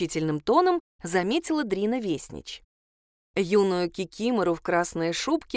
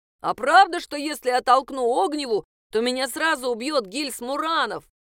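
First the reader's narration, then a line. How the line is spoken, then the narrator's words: Mock-terrified shout. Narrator (Russian): выкрикнул Отто Йорк, в притворном ужасе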